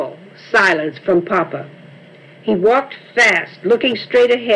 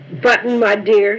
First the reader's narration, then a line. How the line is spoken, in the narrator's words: he said